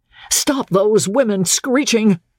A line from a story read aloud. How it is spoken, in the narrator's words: Steve shouted